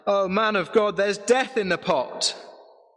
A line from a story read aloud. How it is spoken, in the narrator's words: cried out